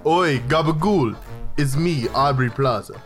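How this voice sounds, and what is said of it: Deep voice sliding into Russian accent. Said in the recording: “Why did I go Russian? ... I tried to give Audrey a deep voice, but then it just went Russian.”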